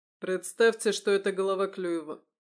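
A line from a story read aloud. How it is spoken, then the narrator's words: Grim advice. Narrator (Russian): мрачно посоветовал Михаил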